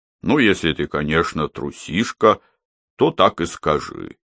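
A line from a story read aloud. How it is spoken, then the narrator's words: Deep bass voice. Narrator (Russian): пробасил Дед Мороз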